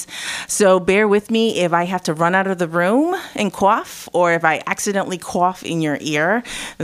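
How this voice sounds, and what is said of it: Husky, sick-sounding voice. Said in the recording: “if you can hear from my voice, I have a sexiness going on, but it's actually a cold. I have a cough”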